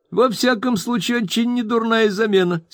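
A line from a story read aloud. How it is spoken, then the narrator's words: Laughing reply. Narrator (Russian): смеясь ответил мистер Пиквик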